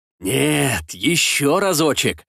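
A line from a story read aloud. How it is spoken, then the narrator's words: Furious growl. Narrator (Russian): словно разъяренный тигр прорычал мошенник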